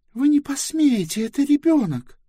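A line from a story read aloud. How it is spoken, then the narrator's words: Furious exclamation. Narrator (Russian): яростно воскликнула Близ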